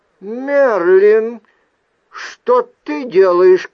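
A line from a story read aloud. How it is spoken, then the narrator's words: Shouted. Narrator (Russian): крикнула Вайл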